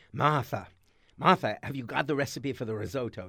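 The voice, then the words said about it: Old Bostonian slightly British accent. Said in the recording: “that strange accent that we hear in films ... this weird Bostonian... slightly British ... They would rasp the R's and stretch out the vowels ... They would both rasp and soften their R's.”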